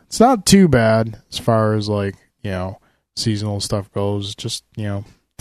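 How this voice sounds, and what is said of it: Congested voice with a cold. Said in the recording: “I apologize for the way my voice sounds. ... slight cold ... throat congestion”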